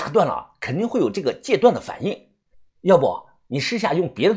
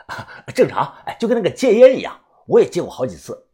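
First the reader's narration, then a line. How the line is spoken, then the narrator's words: Laughing. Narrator (Chinese): 我笑着说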